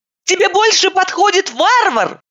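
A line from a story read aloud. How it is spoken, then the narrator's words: Shouting. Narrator (Russian): Закричала я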